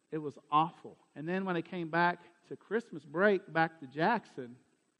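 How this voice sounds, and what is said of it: Southern American accent. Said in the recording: “if y'all think my accent is bad now ... it was still super Southern”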